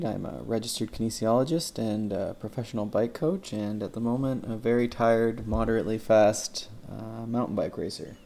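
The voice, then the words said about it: Flat monotone voice. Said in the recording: “my very monotone voice”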